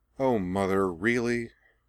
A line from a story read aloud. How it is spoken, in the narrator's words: she said wearily